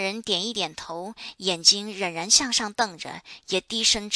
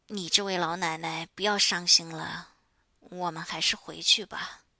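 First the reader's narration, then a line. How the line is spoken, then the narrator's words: Low, anxious comfort. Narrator (Chinese): 华大妈生怕他伤心的快要发狂了，低声对他说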